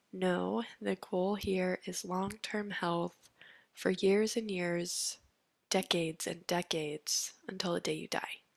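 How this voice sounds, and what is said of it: Congested, affected voice. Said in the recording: “sorry for my voice. I have seasonal allergies right now ... it's getting to me”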